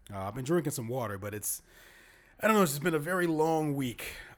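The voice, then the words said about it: Strained, fading voice. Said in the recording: “I actually feel like I'm losing my voice already.”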